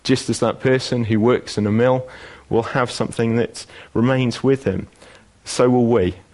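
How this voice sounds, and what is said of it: Mixed Welsh accent, sounds Australian. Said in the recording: “Most people don't think I'm Welsh, because my accent is a little bit odd. Most people think I'm an Aussie instead.”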